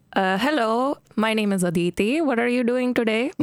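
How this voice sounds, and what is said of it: Put-on Indian accent. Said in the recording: “Do an Indian accent for us.”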